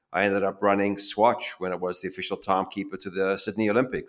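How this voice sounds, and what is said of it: African English accent. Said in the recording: “born in Africa, hence this accent”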